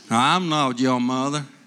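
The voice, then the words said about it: Southern, South African-tinged dog voice. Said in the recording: “It's a southern dog... my version of a southern dog. It's like a South African southern dog.”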